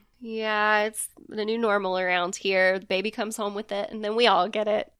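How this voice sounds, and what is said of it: Stuffy voice with a cold. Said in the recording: “I've got a bit of a cold.”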